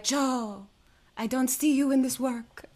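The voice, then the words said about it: Put-on German accent. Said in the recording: “I can't do a German accent. ... Pretty close. ... It's very close. ... that's an excellent impression.”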